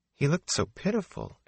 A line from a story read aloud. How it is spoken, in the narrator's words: Egwene murmured